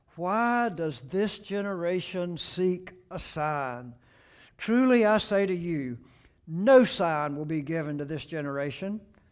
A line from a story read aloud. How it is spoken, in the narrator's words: he sighed deeply in his spirit and said